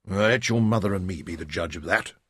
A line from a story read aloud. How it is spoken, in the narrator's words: Tom said gruffly